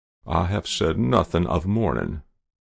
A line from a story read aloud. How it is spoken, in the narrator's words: replied the general coldly